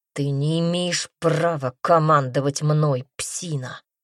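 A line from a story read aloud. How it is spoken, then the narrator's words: Displeased growl. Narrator (Russian): прорычал раздражающе знакомый голос, сочащийся неудовольствием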